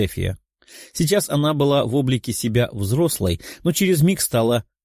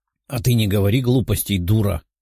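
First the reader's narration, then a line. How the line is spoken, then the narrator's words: Growling snap. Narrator (Russian): рыкнула Даша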